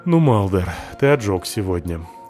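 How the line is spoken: Tired. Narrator (Russian): сказал я устало

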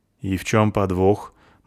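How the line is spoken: Gloomy question. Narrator (Russian): мрачно спросила гномиха

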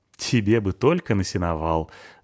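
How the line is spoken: Laughing. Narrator (Russian): засмеялась Анюта

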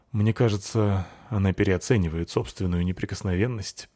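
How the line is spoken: Father sighing. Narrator (Russian): вздохнул папаша

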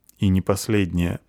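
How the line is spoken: Gloomy. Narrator (Russian): мрачно отвечает драматург

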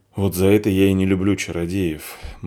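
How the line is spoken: Gloomy woman. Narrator (Russian): мрачно сказала женщина

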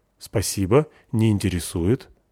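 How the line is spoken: Calm reply. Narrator (Russian): ответил я спокойно

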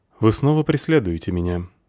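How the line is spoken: Deliberately calm boatman. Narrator (Russian): сказал нарочито спокойным тоном лодочник

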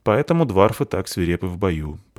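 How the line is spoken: Grumbling. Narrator (Russian): проворчал пан

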